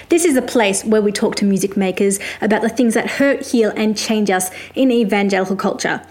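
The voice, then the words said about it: Australian accent. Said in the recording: “I'm a music journalist based in Australia, if you couldn't tell by my accent.”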